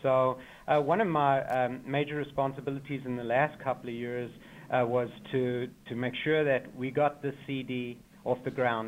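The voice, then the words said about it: South African accent. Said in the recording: “As you can tell from my accent, I'm a real immigrant from South Africa”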